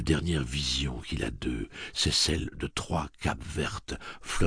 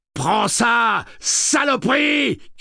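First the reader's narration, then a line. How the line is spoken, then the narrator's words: Shouted. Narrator (French): crie Jamie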